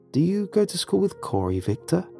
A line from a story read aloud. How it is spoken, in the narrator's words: I asked the child kindly